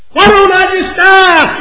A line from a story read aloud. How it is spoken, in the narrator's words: You scream out and you begin weeping and gnashing your teeth